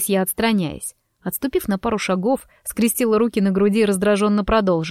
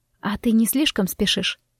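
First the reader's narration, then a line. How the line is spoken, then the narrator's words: Contented sigh. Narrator (Russian): вздохнула я, наслаждаясь его прикосновениями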